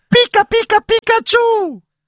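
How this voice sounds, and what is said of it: Squeaky cartoon Pikachu voice. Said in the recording (Italian): “la voce di Pikachu ... l'imitazione”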